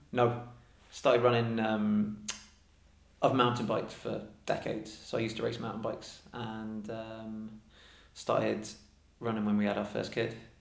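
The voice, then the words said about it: Non-local regional English accent. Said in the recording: “going by your accent, you're obviously not from here”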